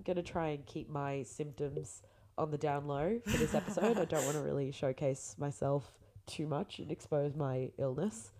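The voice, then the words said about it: Congested, nasal, croaky voice. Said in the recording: “the worst blocked nose known to existence ... you can probably hear how nasally and like gross my voice is ... sounds a bit gross and croaky”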